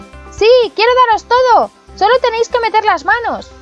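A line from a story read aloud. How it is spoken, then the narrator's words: Shouting with full force. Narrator (Spanish): Pulgarcito se puso a gritar de nuevo con todas sus fuerzas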